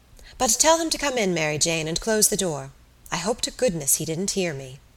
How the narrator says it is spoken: She laughed herself this time good-humouredly, and then added quickly

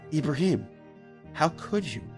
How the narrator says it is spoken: the girl asked him, in the kindest voice imaginable

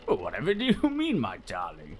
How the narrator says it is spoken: I said with a chuckle

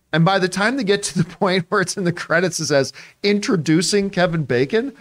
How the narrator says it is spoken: I laughed out loud

